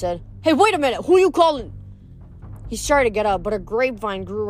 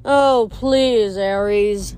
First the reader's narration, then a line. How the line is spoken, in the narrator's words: Dionysus sighed